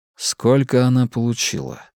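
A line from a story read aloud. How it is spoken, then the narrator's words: Soft question. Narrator (Russian): мягко спросил я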